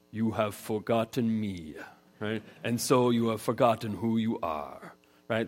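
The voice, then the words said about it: Deep voice of a lion king. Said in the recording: “That's the voice of Mufasa... my best impression.”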